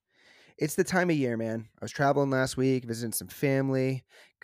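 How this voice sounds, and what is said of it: Sick, rough-sounding voice. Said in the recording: “I'm a bit under the weather this week ... my voice sounds a little crazy”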